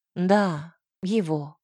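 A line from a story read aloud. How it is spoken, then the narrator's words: Sigh. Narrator (Russian): вздохнула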